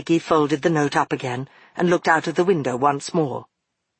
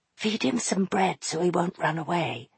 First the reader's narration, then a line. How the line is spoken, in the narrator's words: Maggie whispered to Fenolio